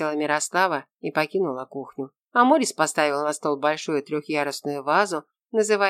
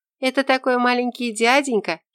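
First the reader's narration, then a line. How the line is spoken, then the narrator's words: Giggle. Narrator (Russian): хихикнула Тося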